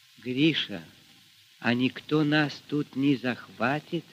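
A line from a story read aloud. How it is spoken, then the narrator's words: Quiet question. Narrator (Russian): тихо спросила Аксинья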